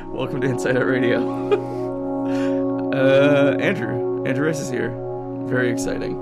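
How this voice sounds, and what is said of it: Voice full of vocal fry. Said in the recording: “I don't know if you can hear that in my vocal fry-filled voice.”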